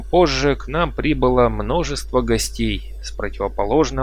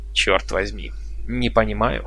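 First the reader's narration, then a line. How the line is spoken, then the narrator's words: Puzzled grumble. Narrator (Russian): буркнул Пауэлл, озадаченный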